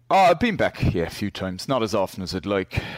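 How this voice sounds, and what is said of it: Irish accent. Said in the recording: “I was born and grew up in Ireland... I'll still keep this accent... It is delightful”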